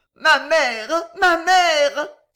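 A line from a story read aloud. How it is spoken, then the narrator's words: Sobbing. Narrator (French): sanglota Violetta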